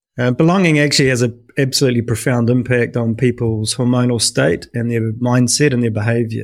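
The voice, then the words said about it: New Zealand accent. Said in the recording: “you can probably tell by my accent, I'm a New Zealander, but I have been living in the UK for most of the last 20 years”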